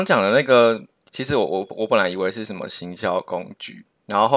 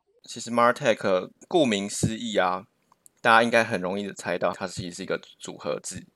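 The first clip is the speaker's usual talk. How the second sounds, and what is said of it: Voice getting quieter and quieter. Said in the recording (Chinese): “你为什么声音越来越小声？你是很心虚吗？”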